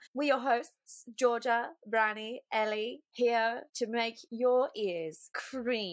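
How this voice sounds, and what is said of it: Usual voice. Nothing is said of it.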